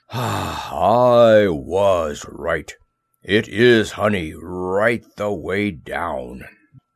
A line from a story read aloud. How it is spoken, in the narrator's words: he gave a deep sigh